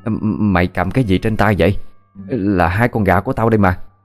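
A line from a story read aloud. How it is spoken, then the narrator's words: Stammering question. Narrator (Vietnamese): Bà Hà ... lắp bắp hỏi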